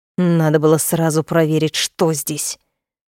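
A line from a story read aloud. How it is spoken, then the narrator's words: Angry grumbling. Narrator (Russian): проворчал явно злясь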